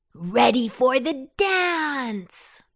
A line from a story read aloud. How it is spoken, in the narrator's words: with his features all aglow, he cried out